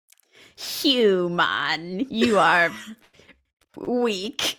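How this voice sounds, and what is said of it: Ferengi alien character voice. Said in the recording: “do an impression... I got a last outpost Ferengi.”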